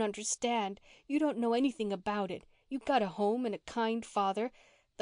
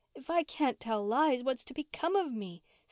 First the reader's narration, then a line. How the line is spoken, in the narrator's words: said Mary with a sob